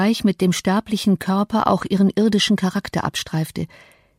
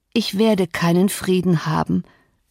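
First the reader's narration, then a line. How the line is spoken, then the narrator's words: Weak groan. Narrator (German): stöhnte Catherine, zum Bewusstsein ihrer Schwäche zurückgerufen durch das regellose Klopfen ihres Herzens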